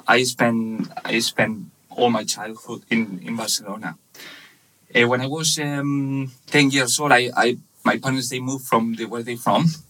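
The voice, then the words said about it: Spanish accent. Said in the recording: “I'm from Spain. You can't, you know, tell by my accent.”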